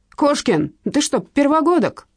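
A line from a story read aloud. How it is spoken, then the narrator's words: Firefighter's gruff bark. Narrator (Russian): рявкнул пожарный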